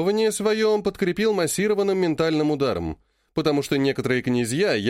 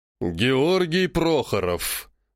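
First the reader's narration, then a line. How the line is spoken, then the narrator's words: Menacing. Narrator (Russian): грозно сказал Шелагин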